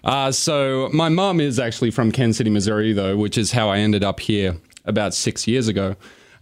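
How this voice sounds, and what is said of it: Australian accent. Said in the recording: “That's an Australian accent.”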